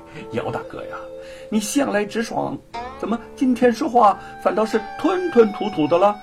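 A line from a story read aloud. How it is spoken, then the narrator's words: Amused. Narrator (Chinese): 吴承恩 心中有些好笑 就说了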